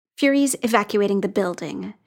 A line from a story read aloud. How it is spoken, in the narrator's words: she said, her voice biting